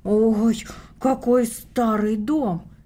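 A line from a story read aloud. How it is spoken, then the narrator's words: Exclaiming. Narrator (Russian): воскликнула Таня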